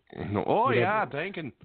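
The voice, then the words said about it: Put-on Minnesota accent. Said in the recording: “Can you say it with a Minnesota accent? ... I wasn't expecting that”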